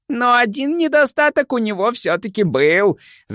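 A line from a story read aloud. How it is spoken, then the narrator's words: Shrieking fat man. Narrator (Russian): завизжал толстяк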